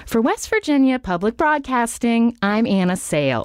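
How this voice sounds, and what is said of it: Sing-songy animated radio reporter delivery. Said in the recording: “I was trying to impersonate like Nina Totenberg ... She's very animated ... it would be very sing-songy, my delivery ... I sounded just a total amateur”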